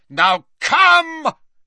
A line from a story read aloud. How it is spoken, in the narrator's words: he shouted